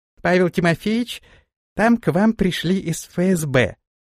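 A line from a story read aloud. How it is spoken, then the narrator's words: Sharp squeaky voice. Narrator (Russian): Резким писклявым голосом она сообщила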